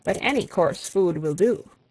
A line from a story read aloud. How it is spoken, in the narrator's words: said Alec gravely